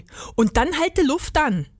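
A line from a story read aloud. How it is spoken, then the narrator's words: Called out. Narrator (German): rief Rudi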